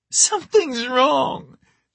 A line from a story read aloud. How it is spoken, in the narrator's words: Charlie wailed